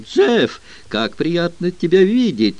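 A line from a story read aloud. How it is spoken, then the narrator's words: Joyful exclamation. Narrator (Russian): Эбби радостно воскликнула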